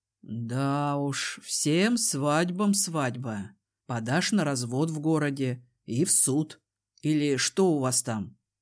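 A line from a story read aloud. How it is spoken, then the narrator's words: Sorrowful sigh. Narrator (Russian): Я горестно вздохнула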